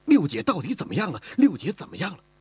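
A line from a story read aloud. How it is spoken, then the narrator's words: Tearful voice. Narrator (Chinese): 声音中带着哭腔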